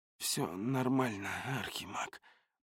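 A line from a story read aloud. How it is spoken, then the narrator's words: Hoarse. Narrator (Russian): прохрипел я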